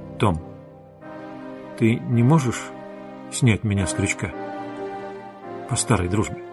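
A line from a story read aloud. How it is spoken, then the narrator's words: Hesitant quiet question. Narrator (Russian): Тессио на миг замялся, потом негромко спросил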